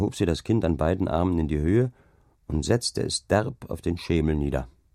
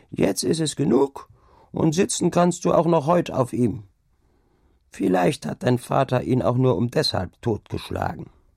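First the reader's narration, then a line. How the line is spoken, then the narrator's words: Old woman calling out. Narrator (German): rief nach einer Weile die Alte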